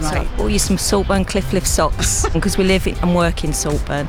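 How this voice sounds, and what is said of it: Strong regional accent. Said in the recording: “I've not lost my accent ... No, you haven't at all, but it sounds gorgeous”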